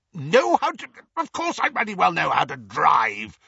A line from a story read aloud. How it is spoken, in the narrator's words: spluttered Uncle Vernon